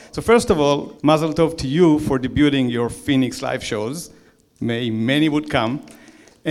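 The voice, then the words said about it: Israeli accent. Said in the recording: “I think I'm the only Israeli, at least by accent”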